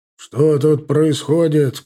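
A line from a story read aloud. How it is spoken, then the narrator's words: Shouted. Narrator (Russian): крикнул Таран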